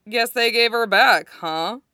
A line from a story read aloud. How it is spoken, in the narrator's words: He said, drawling the words out